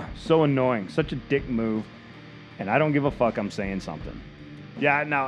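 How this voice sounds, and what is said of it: Usual voice. Nothing is said of it.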